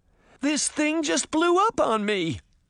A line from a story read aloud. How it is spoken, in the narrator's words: Sabrina cried as the cocoon continued to spray her with fumes